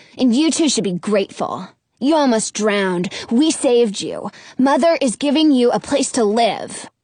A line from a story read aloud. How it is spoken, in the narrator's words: Sharon snaps